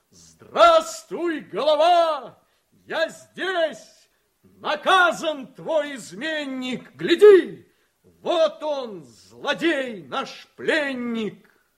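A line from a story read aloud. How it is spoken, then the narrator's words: Shouted. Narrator (Russian): Он крикнул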